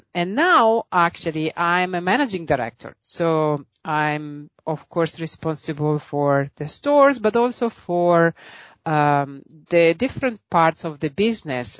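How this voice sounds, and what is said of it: Italian accent. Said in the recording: “as you can probably hear from my accent, I'm Italian.”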